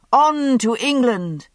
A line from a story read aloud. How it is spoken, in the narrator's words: The crowd had roared, pleased at this show of youthful high spirits and athletic prowess